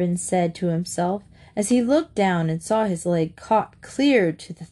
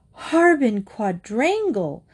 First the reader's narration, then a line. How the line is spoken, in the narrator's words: yelled right in his ear